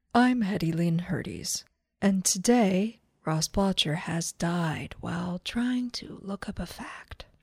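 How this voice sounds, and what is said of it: Imitates an NPR radio host voice. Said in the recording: “This is my NPR voice. ... It just seems like what would be on NPR.”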